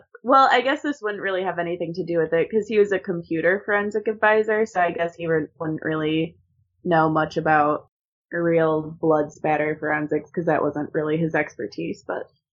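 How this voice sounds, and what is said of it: Talking very fast. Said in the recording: “I'm talking so fast”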